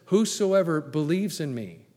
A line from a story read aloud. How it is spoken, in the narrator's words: Jesus said